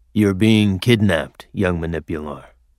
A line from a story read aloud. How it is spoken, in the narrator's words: grumbled